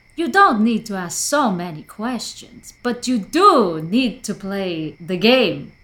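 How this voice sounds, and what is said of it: Put-on Quebec accent. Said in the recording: “That's definitely Quebec accent.”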